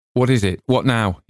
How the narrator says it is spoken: he said sharply

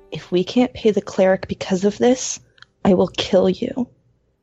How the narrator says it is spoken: she's going to whisper very lowly

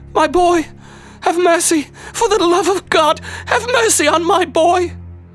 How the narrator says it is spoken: the shackled woman shrieking

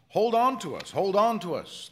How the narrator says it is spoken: they shouted at me

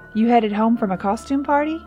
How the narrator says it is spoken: he asked with a chuckle

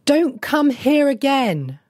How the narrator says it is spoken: she cried after him

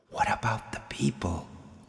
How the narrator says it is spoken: the voice whispered again

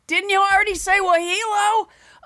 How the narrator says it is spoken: she would yell from her little bunk bed

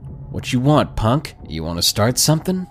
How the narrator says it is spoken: he said

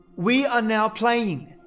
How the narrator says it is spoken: as loudly as you can

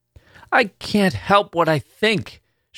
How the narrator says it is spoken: she cried out suddenly

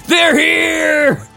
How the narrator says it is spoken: He screamed, running

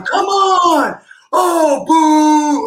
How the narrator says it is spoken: they're yelling

